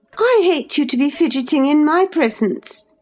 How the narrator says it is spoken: exclaimed the young lady imperiously

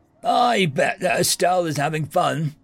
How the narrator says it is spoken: Aza wheezed

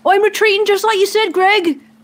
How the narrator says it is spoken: Yelling out

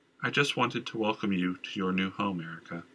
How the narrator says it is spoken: the queen said in a flat, monotone voice

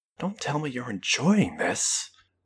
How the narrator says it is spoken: Marie whispered to her

